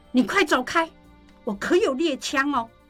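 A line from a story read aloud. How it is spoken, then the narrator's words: Frightened loud shout. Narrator (Chinese): 季珍 跟受惊了一样 冲着门外大喊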